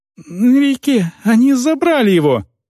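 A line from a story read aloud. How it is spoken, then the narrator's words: Young man squeaking. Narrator (Russian): пискнул юноша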